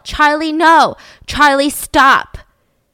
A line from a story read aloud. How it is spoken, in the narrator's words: her dad yell